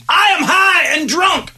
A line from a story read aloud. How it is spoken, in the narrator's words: A man screamed